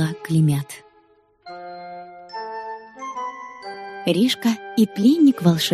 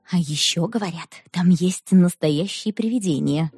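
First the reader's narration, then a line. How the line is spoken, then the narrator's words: Spooky whisper. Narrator (Russian): шепотом пугала Клопикова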